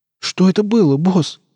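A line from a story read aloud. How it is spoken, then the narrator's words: Breathed out. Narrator (Russian): выдохнул Нарк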